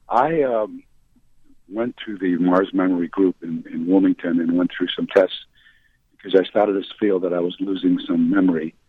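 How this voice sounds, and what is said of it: Hoarse voice. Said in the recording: “Excuse my hoarseness.”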